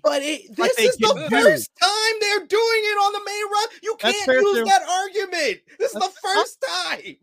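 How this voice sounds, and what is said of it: Yelling, loud agitated voice. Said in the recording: “Why are you yelling at me? Why are you yelling at me? ... I'm yelling”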